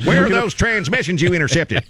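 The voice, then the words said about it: Darth Vader voice with Texas accent. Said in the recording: “Darth Vader with a Texas accent.”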